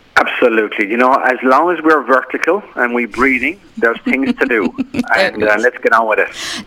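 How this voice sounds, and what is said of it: Irish accent. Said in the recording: “my Irish friend ... That's if you can understand what he's saying. His accent is much, much less than what it used to be.”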